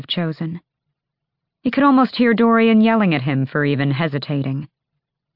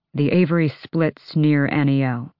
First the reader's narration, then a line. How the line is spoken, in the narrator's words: he murmured